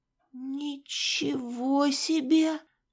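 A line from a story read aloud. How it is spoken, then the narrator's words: Muttering. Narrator (Russian): пробормотала я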